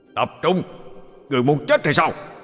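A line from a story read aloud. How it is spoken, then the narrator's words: Loud shout. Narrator (Vietnamese): Linh Nhi quát lớn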